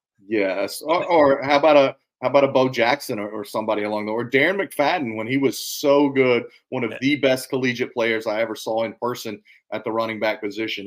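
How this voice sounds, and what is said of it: Deep Southern East Tennessee accent. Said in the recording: “Where's your accent from? ... East Tennessee. ... I suppose it's deep south. Some days it's worse than others. Today is a bad day because I'm really tired.”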